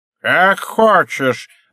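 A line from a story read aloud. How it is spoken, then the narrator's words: Barked. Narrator (Russian): рявкнул спонсор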